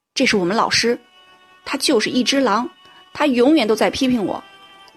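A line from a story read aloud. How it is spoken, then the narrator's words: Loud and indignant. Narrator (Chinese): 同时愤愤的大声说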